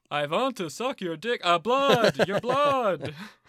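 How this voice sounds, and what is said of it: Vampire Count accent. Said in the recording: “that accent. So, there's a Sesame Street character called the Count.”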